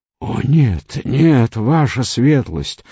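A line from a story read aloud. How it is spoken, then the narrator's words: Pleading, voice breaking. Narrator (Russian): взмолился Омар сорвавшимся голосом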